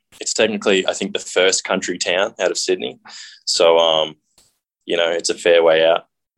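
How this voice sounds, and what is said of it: Australian accent. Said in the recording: “People can probably tell from your accent, it's not close to here. ... I grew up in a town outside of Sydney called Emu Plains, Australia.”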